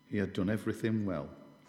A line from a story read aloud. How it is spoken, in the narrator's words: said